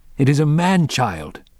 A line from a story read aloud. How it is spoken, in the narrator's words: called triumphantly